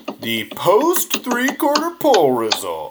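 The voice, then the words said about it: Announcer voice, poorly done. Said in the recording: “announcer voice ... Okay, it's terrible. I've lost it.”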